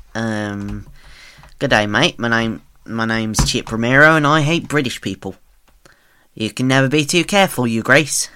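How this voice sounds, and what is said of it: Poor put-on Australian accent. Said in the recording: “I'm going to try and do Australian, but I'm really bad at it.”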